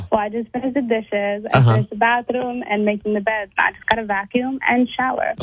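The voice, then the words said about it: Sounds sad and listless. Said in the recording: “why do you sound sad?”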